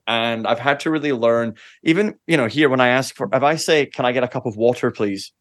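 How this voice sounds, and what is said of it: Softened Scottish accent. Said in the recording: “my accent was so strong... my accent is now Scott-ish”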